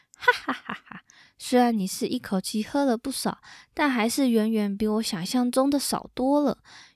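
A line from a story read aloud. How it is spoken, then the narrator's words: King, mocking. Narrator (Chinese): 国王又以讥笑的口吻说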